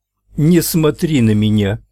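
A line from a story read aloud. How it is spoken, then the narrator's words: Shrill, overwrought shout. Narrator (Russian): выкрикнула тем же взвинченным голосом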